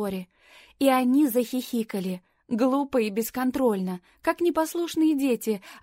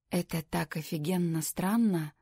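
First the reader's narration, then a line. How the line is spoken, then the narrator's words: Whispered. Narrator (Russian): прошептал Джейми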